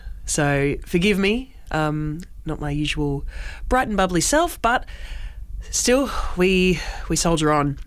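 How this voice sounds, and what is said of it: Congested, nasal voice. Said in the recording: “I've got a bit of a cold today, a little bit blocked up, sounding a little bit nasally”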